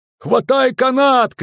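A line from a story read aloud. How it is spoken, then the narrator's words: Shouting. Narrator (Russian): кричал Ольсен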